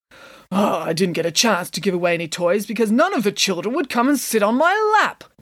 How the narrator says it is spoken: grumbled Mr

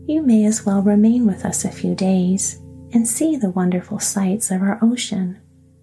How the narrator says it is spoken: continued the queen in a cordial, friendly tone

